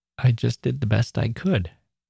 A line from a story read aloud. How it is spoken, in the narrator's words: he said, in a choked up voice